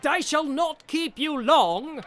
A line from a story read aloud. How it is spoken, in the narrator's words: he cried